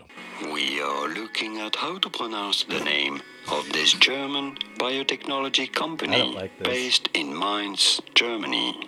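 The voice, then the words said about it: German accent. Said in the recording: “clearly a person with a German accent”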